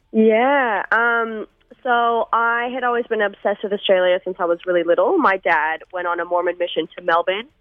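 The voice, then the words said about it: American accent with slight Australian tinge. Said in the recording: “a little bit of a weird accent ... a bizarre sort of 9 year combo of slightly Australian but still hanging on to that American accent”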